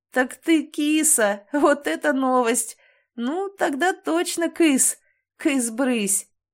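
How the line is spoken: Fit of laughter. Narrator (Russian): зашелся в приступе хохота

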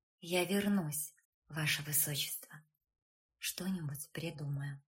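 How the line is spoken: Whisper. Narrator (Russian): Женя прошептать

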